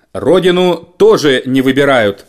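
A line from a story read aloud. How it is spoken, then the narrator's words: Stern. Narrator (Russian): строго сказал премьер-министр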